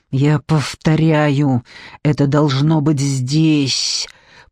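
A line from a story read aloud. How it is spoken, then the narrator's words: Man hissing. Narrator (Russian): прошипел мужчина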